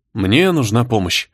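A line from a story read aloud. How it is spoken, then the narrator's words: Gloomy. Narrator (Russian): мрачно произнес барон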